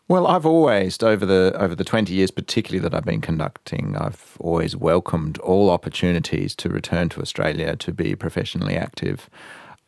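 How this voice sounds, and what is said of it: Australian accent. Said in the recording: “I still sound like an Australian and I have my Australian accent is still quite unsullied”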